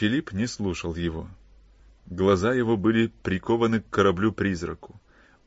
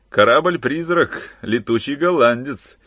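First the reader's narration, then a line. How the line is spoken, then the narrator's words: Shouted. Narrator (Russian): крикнул Шрифтон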